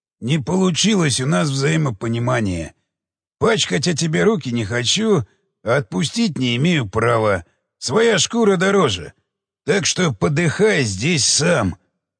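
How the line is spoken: Hoarse rasp. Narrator (Russian): прохрипел

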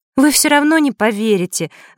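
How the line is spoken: Sighing. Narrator (Russian): вздохнула она

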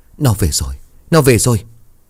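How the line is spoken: Trembling, frightened voice. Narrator (Vietnamese): nói bằng giọng run rẩy sợ hãi

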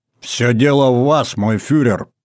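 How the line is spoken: Barked reply. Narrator (Russian): гаркнул в ответ Гейдрих

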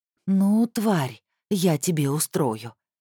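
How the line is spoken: Through gritted teeth, restrained. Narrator (Russian): скрипя зубами, процедила Рита, пытаясь взять себя в руки

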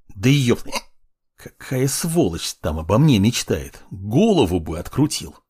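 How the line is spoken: Angry hiss. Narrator (Russian): Прошипел

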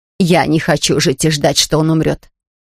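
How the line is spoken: Moaning, crying in deep voice. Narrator (Russian): стенала Меречка и при этом плакала басом

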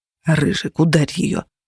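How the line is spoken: Whispering. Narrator (Russian): шептал Феникс

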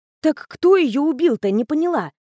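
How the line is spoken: Exclamation. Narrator (Russian): воскликнула Женя

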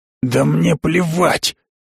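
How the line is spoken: Hissed. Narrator (Russian): зашипел на спутника Итадона

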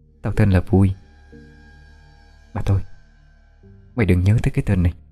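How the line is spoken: Very quiet, sighing. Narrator (Vietnamese): khẽ thở dài, nói rất nhỏ

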